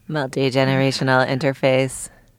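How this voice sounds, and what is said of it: Robot voice. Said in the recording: “robot voice”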